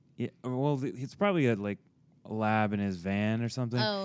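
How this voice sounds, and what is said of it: Usual voice. Nothing is said of it.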